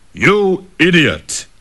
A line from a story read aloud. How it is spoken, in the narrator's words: bellowed the tiger